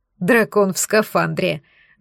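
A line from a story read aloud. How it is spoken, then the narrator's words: Laughing together. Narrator (Russian): засмеялись мы с Гирзлом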